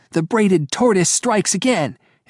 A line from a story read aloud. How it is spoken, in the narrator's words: shouting